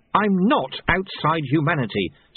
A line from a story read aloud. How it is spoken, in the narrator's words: said Susan sharply